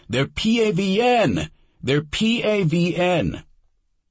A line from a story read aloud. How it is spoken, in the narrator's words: He got on the battalion net radio and yelled